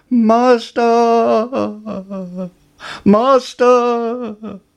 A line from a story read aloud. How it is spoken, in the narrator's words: the harp cried